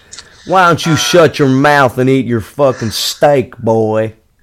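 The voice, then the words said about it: Put-on Southern US accent. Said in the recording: “I've been working on my southern accent. ... Sounds pretty fucking good. ... Yeah, it sounds right.”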